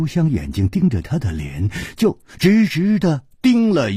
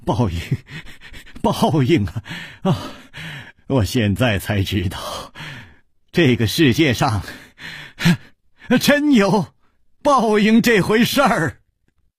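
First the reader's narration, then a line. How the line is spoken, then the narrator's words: Loud laughter. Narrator (Chinese): 他大笑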